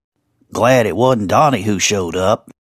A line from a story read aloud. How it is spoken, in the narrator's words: Esau murmured